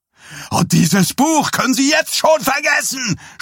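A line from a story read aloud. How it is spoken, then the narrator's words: Shouted. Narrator (German): schrie Dies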